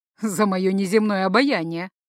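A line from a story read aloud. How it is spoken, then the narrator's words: Chuckling. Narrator (Russian): хохотнул Лоу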